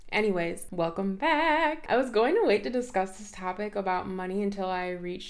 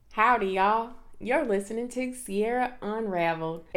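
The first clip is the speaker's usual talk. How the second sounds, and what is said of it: Put-on country Hoosier accent. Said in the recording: “Excuse me while I embrace my inner Hoosier ... I do have a little bit of country girl in me ... if I talked like that the whole episode, knowing damn well I don't have an accent”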